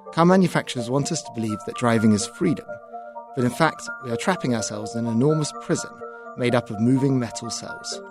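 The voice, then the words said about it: Birmingham, UK accent. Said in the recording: “you heard that accent. is from Birmingham, UK”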